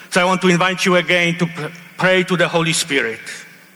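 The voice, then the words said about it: Heavy foreign accent. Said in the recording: “I speak with a heavy accent”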